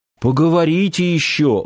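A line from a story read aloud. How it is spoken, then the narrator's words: Sighing. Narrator (Russian): вздохнул Нанос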